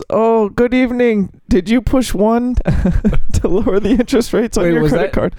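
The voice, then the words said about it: Weak put-on Indian accent. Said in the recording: “Was that your Indian? ... I told you I'm not good at this stuff. ... I told you I'm going to struggle on the impersonations.”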